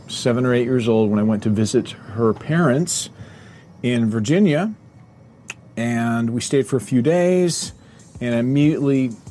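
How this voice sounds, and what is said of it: Smooth radio-announcer voice. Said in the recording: “This guy sounds like a radio personality to me. I think he has a radio voice.”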